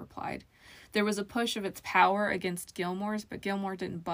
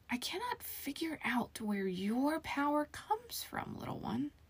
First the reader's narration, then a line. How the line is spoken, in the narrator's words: the mirror whispered